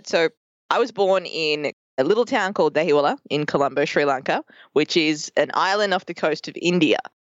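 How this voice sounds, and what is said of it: Thick Australian accent. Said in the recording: “hence the very thick and charming Australian accent that I have ... I sound Australian”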